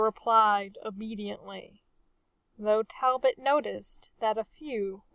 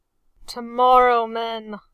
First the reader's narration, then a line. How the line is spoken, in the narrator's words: the captain growled